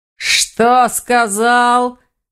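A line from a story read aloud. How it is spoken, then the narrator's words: Werewolf roaring in fury. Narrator (Russian): Взревел оборотень в ярости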